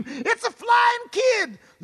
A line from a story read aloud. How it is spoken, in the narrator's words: Jenny Rick saw him and screamed